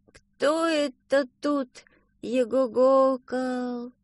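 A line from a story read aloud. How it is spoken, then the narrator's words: Sleepy question. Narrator (Russian): спросил сонным голосом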